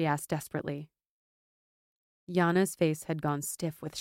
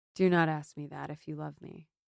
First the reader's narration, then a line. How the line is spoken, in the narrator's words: Brielle said softly